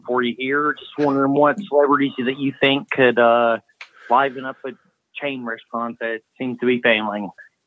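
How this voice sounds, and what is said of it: Kentucky accent. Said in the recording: “a cool Kentucky accent. ... Very cool Kentucky accent.”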